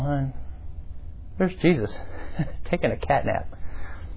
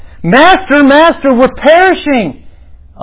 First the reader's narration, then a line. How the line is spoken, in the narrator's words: screaming